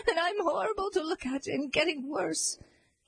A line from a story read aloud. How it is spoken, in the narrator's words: sobbed the disguised queen